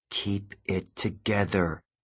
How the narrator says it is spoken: I told myself

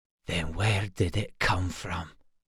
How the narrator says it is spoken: Auric whispered

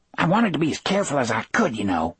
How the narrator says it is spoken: Harry said to Brutal in a thin, scolding voice

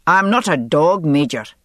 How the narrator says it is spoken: Jamie snapped

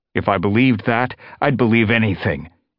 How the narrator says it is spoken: Longtail spat

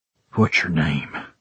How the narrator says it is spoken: I rasped, feeling the effect she always had on me

